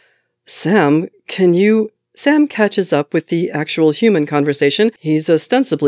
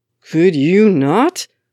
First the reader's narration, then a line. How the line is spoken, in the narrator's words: Sam says through gritted teeth